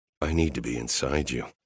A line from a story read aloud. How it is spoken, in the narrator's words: I muttered over her mouth